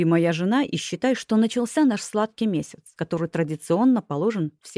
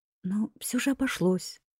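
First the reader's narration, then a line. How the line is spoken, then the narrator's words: Timid, smiling. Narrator (Russian): робко улыбнулась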